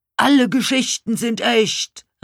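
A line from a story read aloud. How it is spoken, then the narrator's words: Call. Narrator (German): rief Pokus jetzt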